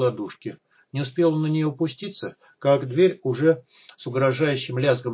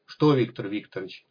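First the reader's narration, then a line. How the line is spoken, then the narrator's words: Irritated. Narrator (Russian): раздраженно попросил Зубов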